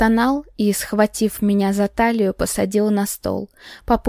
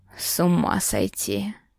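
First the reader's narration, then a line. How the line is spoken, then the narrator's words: Breathless exhale. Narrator (Russian): Выдохнул он в перерыве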